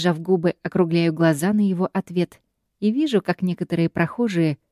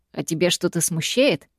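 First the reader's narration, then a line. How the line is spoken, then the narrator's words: Mocking question. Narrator (Russian): спрашивает Тео все тем же насмешливым тоном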